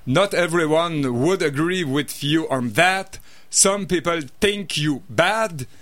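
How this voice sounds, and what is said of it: Terrible French-accented English. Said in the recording (French): “mon accent anglais épouvantable ... attention, bouchez-vous les oreilles”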